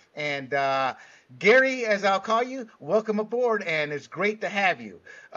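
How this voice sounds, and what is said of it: Put-on Latino accent. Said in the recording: “I threw on the Latino accent there.”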